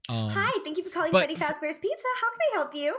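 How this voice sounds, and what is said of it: Bright put-on customer service voice. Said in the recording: “That is my actual customer service voice.”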